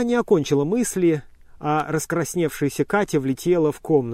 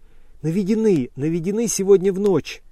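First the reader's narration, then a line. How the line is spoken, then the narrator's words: Joyful. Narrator (Russian): радостно сказала она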